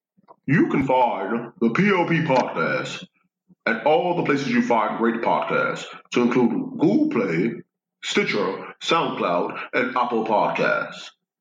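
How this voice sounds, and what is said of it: Put-on radio announcer voice. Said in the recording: “I'm putting my radio voice on”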